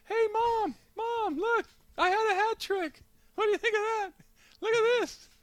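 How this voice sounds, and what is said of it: High-pitched childlike Messi impression. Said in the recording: “That's how his voice has to be ... I just didn't picture him having a very high”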